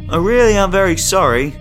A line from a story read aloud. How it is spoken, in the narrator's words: Kenneth shouted